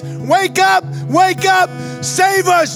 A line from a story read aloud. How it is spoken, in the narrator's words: in the midst of a crazy storm, they're yelling